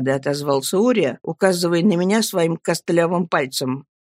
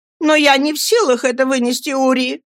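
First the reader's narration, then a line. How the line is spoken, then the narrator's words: Repeated mother's shout. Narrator (Russian): снова крикнула маменька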